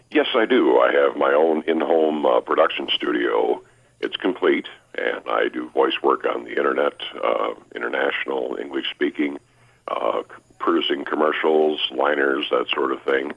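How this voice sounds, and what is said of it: Polished broadcaster's voice. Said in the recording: “if you can tell by his voice, he's been in broadcasting”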